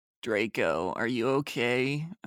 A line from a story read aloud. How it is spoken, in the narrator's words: I asked in a gothic voice